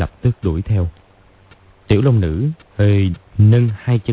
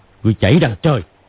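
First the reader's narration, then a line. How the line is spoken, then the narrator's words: Shouted. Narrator (Vietnamese): Hoắc Đô quát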